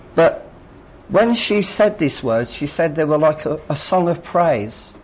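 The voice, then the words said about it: Ambiguous English, Irish or Scottish accent. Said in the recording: “I'm standing here with a slightly strange accent. ... Is he English? Is he Irish? Is he Scottish? It's a bit weird”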